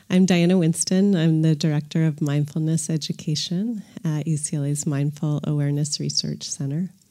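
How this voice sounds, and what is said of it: Congested voice from a cold. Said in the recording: “I have a little bit of a cold today ... my voice obviously will sound a little bit different”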